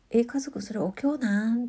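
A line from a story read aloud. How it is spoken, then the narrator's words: Blurted thoughtlessly. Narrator (Japanese): って何も考えずにですねそのまんま言った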